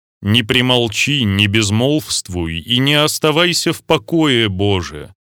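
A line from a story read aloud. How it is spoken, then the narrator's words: Tearful exclamation after sigh. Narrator (Russian): святый Макарий тяжело вздохнул и, проливая слезы, воскликнул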